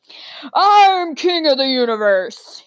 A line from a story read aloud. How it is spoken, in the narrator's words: he bellowed